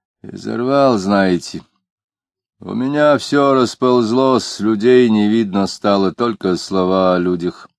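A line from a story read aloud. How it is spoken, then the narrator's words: Muffled. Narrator (Russian): глухо говорил Иноков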